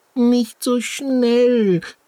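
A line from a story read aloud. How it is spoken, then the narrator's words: Squeaky voice. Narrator (German): piepst Tienchen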